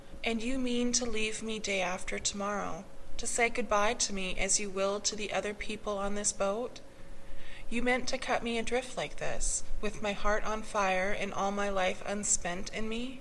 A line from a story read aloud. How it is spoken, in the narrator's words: She sighed despondently